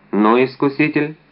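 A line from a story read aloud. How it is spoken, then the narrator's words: Plain. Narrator (Russian): сказал Д'Артаньян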